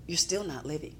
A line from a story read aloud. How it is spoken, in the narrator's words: he whispers in my spirit